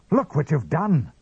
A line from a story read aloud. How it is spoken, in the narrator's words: cried Father Stone